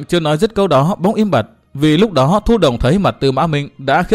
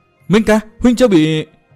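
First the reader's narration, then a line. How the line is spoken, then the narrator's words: Glad, surprised cry. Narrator (Vietnamese): Bích Duyên Hồng vừa mừng vừa ngạc nhiên rú lên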